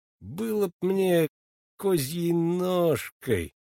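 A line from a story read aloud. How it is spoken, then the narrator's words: Muttering medic. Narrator (Russian): бормочет фельдшер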